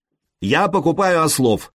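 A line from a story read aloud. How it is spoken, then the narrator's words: Shouted in two languages. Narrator (Russian): крикнул он по-словенски и повторил тоже по-ромейски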